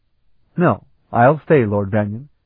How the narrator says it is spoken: Sarabian said firmly

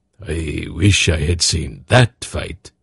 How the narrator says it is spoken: Zakath murmured

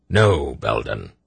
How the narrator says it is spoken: he said firmly

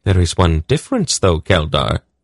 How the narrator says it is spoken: she said sweetly

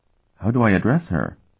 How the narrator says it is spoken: the queen nervously asked her husband

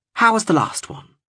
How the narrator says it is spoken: asked brightly

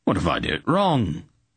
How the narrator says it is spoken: he asked in a worried voice

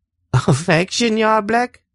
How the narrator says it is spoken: She laughed

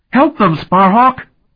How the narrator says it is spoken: Talon cried, his voice shrill

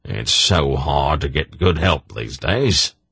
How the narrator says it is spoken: Durnick sighed

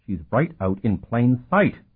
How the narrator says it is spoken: Curic said in a strangled tone

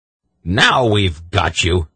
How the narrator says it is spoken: Belden said triumphantly

